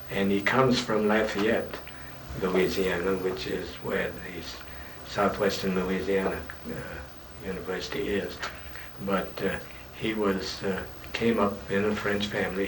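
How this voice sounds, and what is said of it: Slight French accent. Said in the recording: “someone who is still decidedly more French. Or do you find I have an accent? ... I think you have some accent. ... Yes, but not very great. ... Not terribly, no.”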